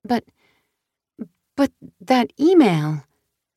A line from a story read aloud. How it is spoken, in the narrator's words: Susan stammered, her mind too busy reconciling Rachel's words with the new information to properly articulate